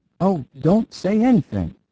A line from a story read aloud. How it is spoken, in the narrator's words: cried the atheist cobbler, in an ecstasy of admiration of the English legal system